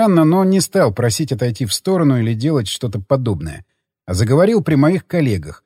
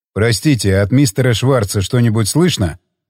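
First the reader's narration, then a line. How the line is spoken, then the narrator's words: Plain. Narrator (Russian): спросил Джефф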